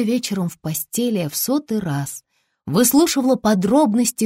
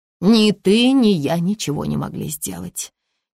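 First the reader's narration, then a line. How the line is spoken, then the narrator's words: Heavy sigh. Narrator (Russian): тяжело вздохнула мисс Рид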